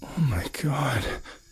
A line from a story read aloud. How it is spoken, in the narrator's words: he whispered, horrified that he had stepped into a pile of human entrails